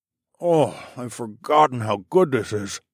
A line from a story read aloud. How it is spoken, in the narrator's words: I moaned as I ate my piece